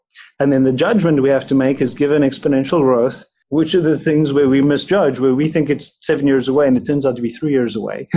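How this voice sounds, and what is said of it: South African accent. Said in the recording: “detect your South African accent”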